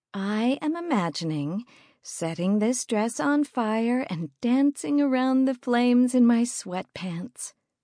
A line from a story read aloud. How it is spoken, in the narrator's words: I said dreamily